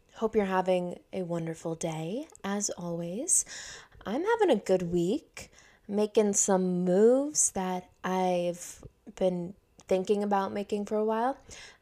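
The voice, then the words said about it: Raspy voice. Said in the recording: “I'm realizing just now how raspy my voice sounds.”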